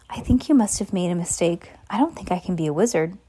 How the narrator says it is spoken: he said quietly

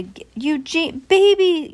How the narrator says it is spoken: shouted Eugenia

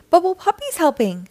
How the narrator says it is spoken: exclaimed Gil

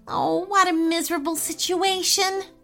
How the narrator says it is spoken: wailed

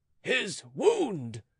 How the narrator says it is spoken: cried Monsieur de Suffren

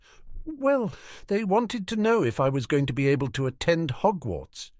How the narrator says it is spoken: Neville said timidly

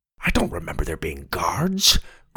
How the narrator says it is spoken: Grandpa whispered

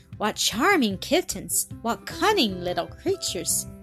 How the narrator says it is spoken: she exclaimed in her delight

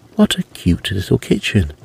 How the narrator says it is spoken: exclaimed Annie

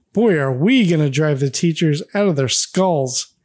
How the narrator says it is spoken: Arthur chuckles and goes on

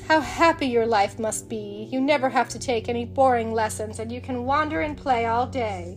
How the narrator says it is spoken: sighed the prince

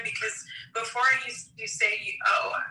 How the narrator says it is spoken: I snapped

